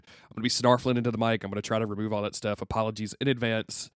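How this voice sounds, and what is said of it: Sick, congested, slightly off voice. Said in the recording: “I'm sick, so I'm a little off... My voice is a little weird.”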